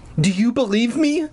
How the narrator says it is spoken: I cried

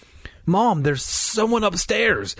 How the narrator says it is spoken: I cried

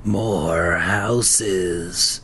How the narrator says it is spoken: one of the pumpkin heads whispered

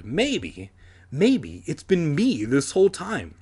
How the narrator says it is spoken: I cried excitedly

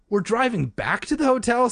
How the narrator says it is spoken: Sari asked, her voice revealing a surprise

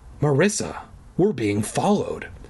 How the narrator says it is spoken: I whispered

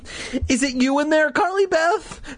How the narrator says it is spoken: Steve let out a tense laugh

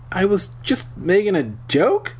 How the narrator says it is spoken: I stammered

